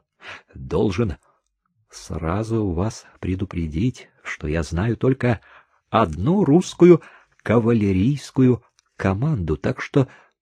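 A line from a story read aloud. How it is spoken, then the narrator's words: Said quietly. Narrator (Russian): тихо сказал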